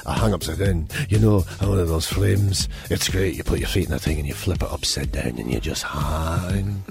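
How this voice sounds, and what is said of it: Weak Welsh accent drifting Scottish. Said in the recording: “I don't know why he suddenly moved to Scotland. That was literally the best Welsh accent I could do.”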